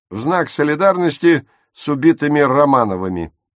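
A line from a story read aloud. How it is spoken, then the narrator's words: Snapping retort. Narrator (Russian): огрызнулся Курт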